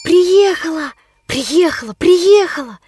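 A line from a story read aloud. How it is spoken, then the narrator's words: Noisy whisper through hall. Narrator (Russian): Пронеслось шумным шепотом по зале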